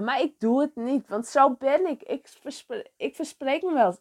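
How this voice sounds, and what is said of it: Frisian-accented Dutch. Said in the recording (Dutch): “je hoort mijn Friese accent”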